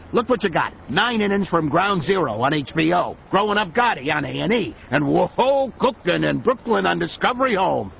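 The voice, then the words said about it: New York accent. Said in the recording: “DTV talks with a New York accent.”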